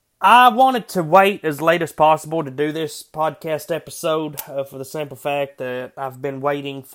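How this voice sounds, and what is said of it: Congested voice from a cold. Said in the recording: “I'm battling a head cold at the moment, so my voice is a little bit different”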